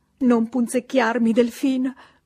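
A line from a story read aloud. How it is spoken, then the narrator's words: Countess, plaintive voice. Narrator (Italian): fece la contessa con voce lamentosa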